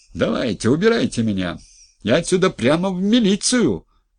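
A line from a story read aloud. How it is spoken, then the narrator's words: Yelling. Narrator (Russian): орал Нерешко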